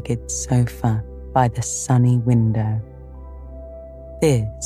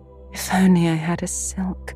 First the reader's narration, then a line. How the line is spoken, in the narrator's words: sighed Meg